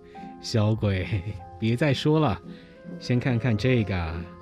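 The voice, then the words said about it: Low, deep character voice. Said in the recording (Chinese): “用低沉的声音说”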